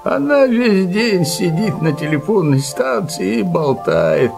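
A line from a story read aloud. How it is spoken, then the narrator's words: Grumbling. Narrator (Russian): проворчал Килим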